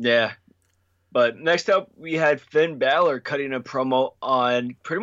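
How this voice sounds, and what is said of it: Usual voice. Nothing is said of it.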